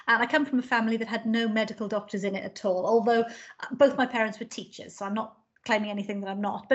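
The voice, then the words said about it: Welsh accent. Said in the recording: “I'm from South Wales, and so I've got this Welsh accent.”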